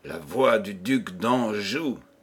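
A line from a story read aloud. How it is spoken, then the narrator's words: Muffled, hollow murmur. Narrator (French): murmura sourdement Henri de Montmorency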